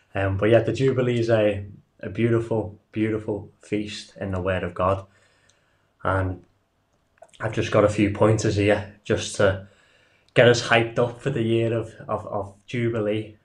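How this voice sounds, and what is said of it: Liverpool-area English accent. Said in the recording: “we're from the Almond House Fellowship. We're a Torah observant ministry on the Wirral, which is close to Liverpool in the UK. So for those listening, our accents might sound a little bit funny.”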